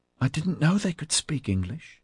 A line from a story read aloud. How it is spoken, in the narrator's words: Orion whispered breathlessly to Ozzy